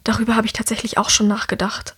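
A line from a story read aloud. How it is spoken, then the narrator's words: Whispered answer. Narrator (German): antwortet Herrick ebenfalls im Flüsterton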